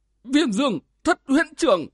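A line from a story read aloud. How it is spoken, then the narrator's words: Two old men, terrified exclaim. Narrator (Vietnamese): Hai lão ma mặt mình kinh hãi, buột miệng kêu lên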